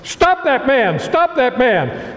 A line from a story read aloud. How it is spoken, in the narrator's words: Major Rathbone shouted